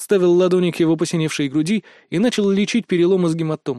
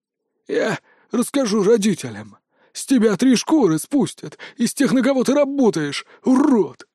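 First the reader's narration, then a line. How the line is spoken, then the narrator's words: Hoarse rasp, bloody mouth. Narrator (Russian): прохрипел Виктор, выпуская изо рта кровавую слюну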